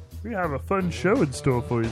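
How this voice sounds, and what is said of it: Silly Yoda-like puppet character voice. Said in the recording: “stop with the voices... It was like Yoda's little brother... Oh, I thought it was Kermit.”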